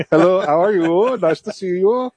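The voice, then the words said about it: Put-on Austrian accent. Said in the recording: “talk with an Austrian accent.”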